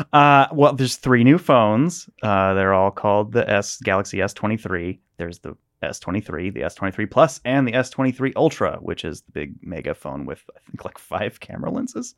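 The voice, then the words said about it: Mock newscaster voice. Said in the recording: “Put on my best newscaster voice.”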